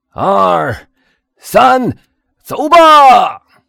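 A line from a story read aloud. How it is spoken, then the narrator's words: Two voices shouting together. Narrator (Chinese): 两个掘墓人一起喊道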